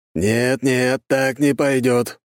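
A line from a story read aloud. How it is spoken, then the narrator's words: Loud indignation. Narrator (Russian): Дьерк громко возмутился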